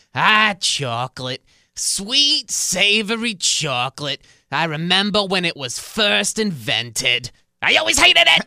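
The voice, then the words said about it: Impression of an old lady character. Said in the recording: “my impersonation ... the old lady”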